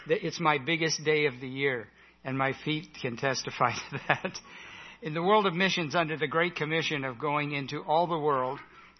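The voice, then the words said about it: Strained, worn-out voice. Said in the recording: “I spoke 12 hours yesterday, so my voice is struggling a little”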